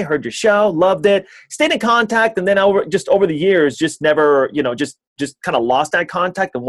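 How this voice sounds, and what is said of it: Usual voice. Nothing is said of it.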